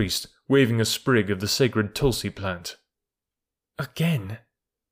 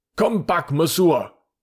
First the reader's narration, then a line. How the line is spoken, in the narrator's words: shouted the crowd